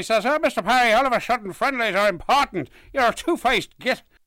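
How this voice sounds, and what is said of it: Poor put-on Northern Irish accent. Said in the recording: “quite horrific attempt at a Northern Irish accent ... He went quite Cornish.”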